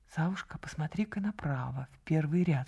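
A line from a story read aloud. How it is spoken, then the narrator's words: Whisper. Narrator (Russian): шепнула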